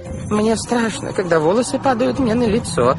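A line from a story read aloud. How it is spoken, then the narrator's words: Whining. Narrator (Russian): захныкала тетя Жозефина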